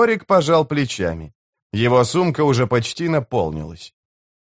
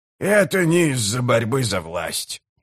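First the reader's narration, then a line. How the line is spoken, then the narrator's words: Grumbling. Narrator (Russian): проворчал Гиборик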